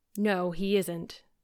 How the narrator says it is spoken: said Marilla in a troubled tone

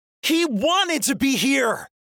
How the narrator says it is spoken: Mal shouts, the loudest I've ever heard her

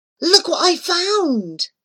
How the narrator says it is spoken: he exclaimed

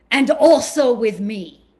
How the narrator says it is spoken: he huffed and said loudly

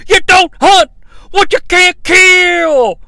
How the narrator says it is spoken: JR yells

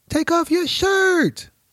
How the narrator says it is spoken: another person yelled

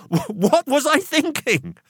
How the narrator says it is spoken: I laughed out loud at my own folly

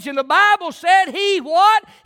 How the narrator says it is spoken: He cried

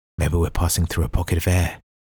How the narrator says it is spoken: his brain whispered

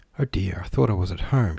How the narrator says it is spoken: she sighed

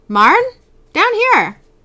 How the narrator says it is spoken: A man yells from downstairs

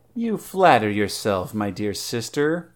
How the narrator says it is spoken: purred Salome

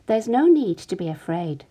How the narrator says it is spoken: said Jesus calmly

